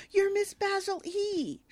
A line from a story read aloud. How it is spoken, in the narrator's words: He exclaims